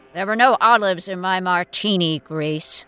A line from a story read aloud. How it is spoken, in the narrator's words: the floating head rumbled irritably